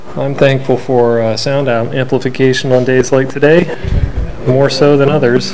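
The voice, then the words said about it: Slightly congested, sick-sounding voice. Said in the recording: “I have a little bit of a cold”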